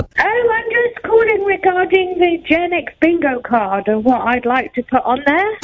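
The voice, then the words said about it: British accent. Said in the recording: “you can't tell by my beautiful accent? ... it could be one of three British people I know.”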